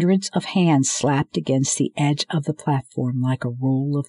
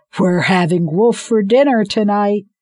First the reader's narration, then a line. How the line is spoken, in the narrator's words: Hunter yelled